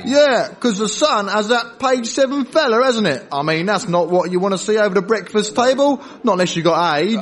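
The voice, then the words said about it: Fake working-class English accent. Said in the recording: “that false working class accent”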